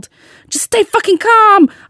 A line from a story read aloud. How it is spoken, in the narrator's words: I yelled back, struggling with my jumper